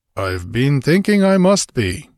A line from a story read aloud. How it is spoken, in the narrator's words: he growled